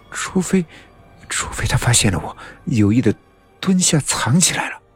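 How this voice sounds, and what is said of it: Quiet, murmured muttering. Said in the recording (Chinese): “小声的嘟囔着”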